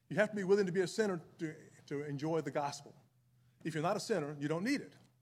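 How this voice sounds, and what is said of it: Southern American accent. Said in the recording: “I took this southern accent north”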